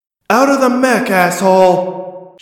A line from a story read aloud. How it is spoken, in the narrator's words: She shouted over the Blossom's loudspeakers